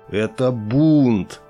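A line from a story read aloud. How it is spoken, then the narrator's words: Angry strained words. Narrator (Russian): гневно выдавил из себя тактик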